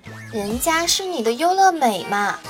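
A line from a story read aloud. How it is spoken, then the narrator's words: Coy, cutesy imitation. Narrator (Chinese): 美眉呢，学着广告里的声音撒娇道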